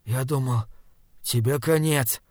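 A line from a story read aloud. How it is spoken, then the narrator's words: Hoarse. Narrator (Russian): хриплым голосом сказал Мип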